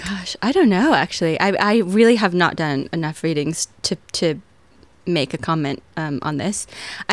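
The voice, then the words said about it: American accent. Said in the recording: “with the American accent ... American voice ... how do you feel your accent works for you”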